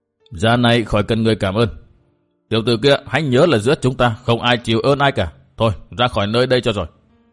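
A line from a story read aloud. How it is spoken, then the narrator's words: Cold reply. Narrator (Vietnamese): Thạch Mụ Mụ lạnh lùng đáp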